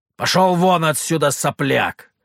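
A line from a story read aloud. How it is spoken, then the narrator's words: Barked. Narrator (Russian): рявкнул Петр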